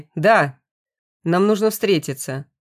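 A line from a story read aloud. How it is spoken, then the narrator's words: Sharp, excited, over phone. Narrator (Russian): На том конце резко и возбужденно произнесли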